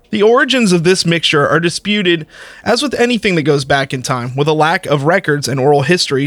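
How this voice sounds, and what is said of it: Southern American accent. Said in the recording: “I'm going to stick with my Southern accent”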